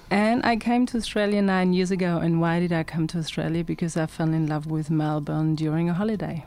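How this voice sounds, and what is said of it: German accent. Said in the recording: “as you can probably hear with my accent, I'm originally from Germany.”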